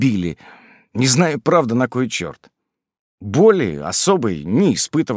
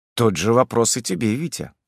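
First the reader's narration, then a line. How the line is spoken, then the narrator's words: Dry reply. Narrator (Russian): сухо ответил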